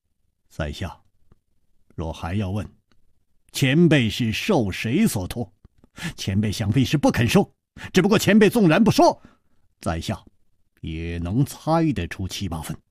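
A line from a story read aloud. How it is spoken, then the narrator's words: Calm, faint smile. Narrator (Chinese): 楚留香淡淡一笑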